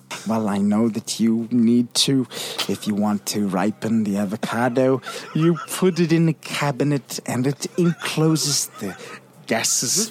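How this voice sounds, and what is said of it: Impression of Christoph Waltz. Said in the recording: “It's somebody impersonating. ... It's an impression. ... That's him doing an impression of Christoph Waltz.”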